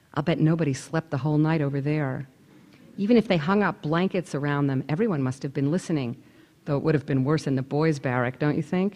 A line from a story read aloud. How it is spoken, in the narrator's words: dropping her voice even lower